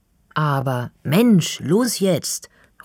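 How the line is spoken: Impatient call. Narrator (German): ruft Finley ungeduldig

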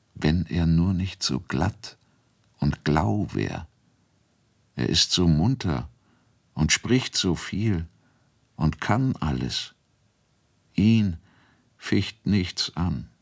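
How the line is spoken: Said quietly. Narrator (German): sagte sie leise

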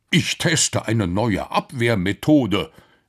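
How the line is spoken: Calling out. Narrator (German): rief der Professor

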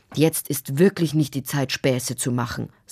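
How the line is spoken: Stern father. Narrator (German): sagte ihr Vater streng

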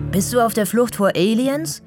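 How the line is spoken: Breathless call. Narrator (German): ruft er außer Atem

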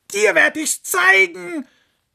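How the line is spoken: Fox shouting angrily. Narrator (German): schrie der Fuchs die Sonne an

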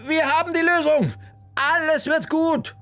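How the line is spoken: Joyful call. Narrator (German): rief sie den beiden entgegen

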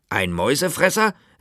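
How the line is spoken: Falcon calling out. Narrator (German): rief der erste Falke

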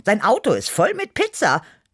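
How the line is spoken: Quick call. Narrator (German): rief ich schnell

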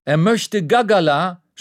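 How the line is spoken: Shouting back. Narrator (German): schreit die Kellnerin zurück

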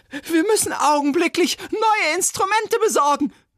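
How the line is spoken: Shrill shout. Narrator (German): rief schrill

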